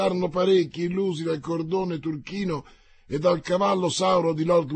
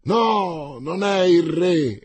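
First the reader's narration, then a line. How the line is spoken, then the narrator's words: Exclaimed. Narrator (Italian): esclamò il cavaliere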